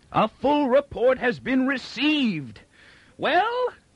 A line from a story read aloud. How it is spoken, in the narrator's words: Inber screamed